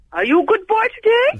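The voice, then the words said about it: Poor impression of Tallulah. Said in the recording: “Rubbish Tallulah impersonator”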